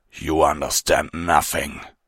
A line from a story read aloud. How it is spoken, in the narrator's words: Fenrir growled